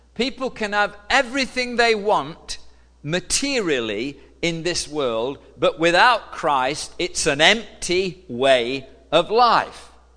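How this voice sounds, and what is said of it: British accent. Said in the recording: “accent was a little bit different ... I'm from the UK”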